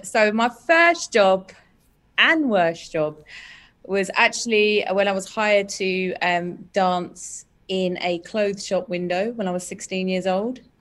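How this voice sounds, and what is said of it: Speaks with a noticeable accent. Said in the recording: “I can hear an accent.”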